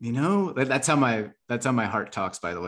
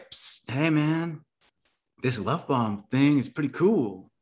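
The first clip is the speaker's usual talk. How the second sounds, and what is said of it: Criminal-sounding Mexican gang accent. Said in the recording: “it has a, a weird criminal esque accent. It's like, hey bro, hey, come over here into the shadows. A little bit of Mexican gang.”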